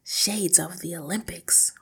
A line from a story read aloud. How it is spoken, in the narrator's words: Hortensia murmured